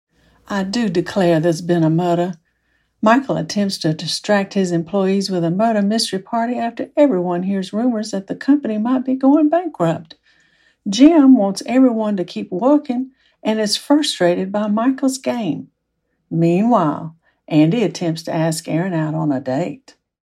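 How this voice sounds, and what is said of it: Southern US accent. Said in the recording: “a great Southern accent”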